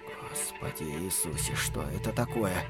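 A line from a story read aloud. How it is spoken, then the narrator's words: Whisper. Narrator (Russian): прошептал мистер Касабян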